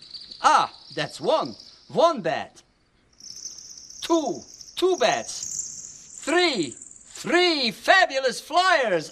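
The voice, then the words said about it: Impression of the Count, Sesame Street. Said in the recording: “your great count impression here? I hear you do a fantastic impression of the count on Sesame Street ... It sounded like the real thing.”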